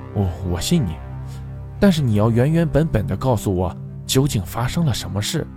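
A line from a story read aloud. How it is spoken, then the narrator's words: Gentle voice. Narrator (Chinese): 柔声道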